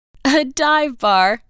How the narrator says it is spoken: laughed Cecilia

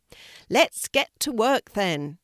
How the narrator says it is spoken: shouted Harvey to everyone

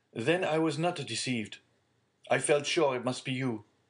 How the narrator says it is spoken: cried Villefort

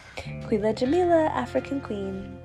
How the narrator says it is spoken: she sang softly to herself

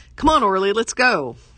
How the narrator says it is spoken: I shouted for easily the 1,000th time that night

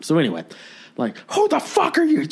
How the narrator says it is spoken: Just screaming

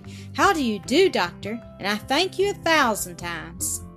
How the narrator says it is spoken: In the full joy of her heart, she exclaimed

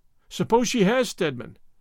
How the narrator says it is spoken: groaned helplessly

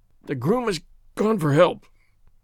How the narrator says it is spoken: groaned the sufferer

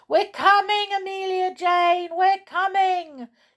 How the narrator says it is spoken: shouted the toys

